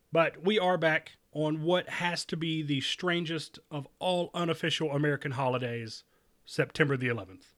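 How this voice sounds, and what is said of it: Sick, under-the-weather voice. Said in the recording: “excuse my voice today, I'm a little under the weather.”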